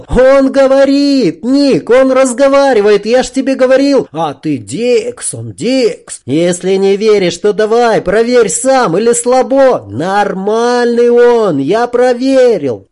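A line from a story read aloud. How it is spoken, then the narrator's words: Joyful ringing boyish shout. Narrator (Russian): Радостно заулыбавшись, пацан так же звонко, но уже без страха закричал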